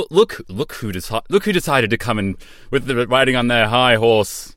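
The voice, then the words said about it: Imitation of co-host's accent. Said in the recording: “I'm copying your accent now.”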